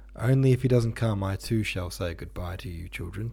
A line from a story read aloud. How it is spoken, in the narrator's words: said with a sorrowful sigh